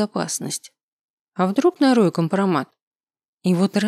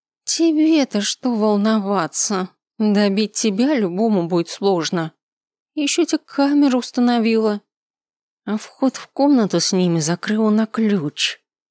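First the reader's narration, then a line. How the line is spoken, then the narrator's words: Through gritted teeth. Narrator (Russian): процедила она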